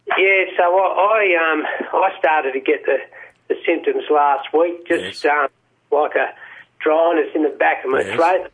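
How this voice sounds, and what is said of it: Voice audibly affected by illness. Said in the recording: “I don't know if you can tell by my voice. ... I can.”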